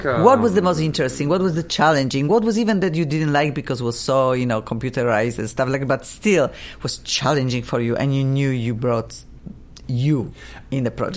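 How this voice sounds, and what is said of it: Noticeable non-native accent. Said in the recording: “my funky accent”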